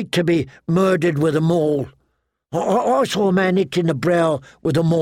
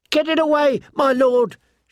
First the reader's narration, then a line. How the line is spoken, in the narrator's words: she pleaded